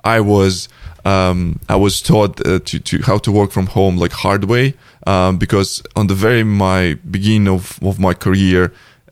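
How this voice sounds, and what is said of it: Heavy Russian accent. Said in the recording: “heavy Russian accent”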